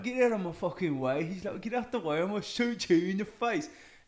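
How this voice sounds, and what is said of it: Imitated British accent. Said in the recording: “these three British guys that were like the scapegoat people”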